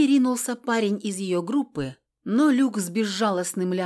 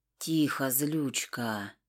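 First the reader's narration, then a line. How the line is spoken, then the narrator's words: Whispered. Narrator (Russian): прошептал Киан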